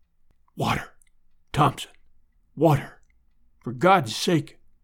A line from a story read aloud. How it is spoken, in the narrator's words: whispered